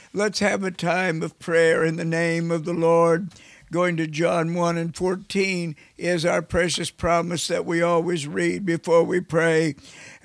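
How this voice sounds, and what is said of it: Raspy, hoarse voice. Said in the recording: “My voice is still raspy today from a head cold”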